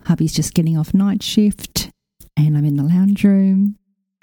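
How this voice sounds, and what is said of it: Whispering, hushed voice. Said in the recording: “I'm just doing a bit of a whisper here.”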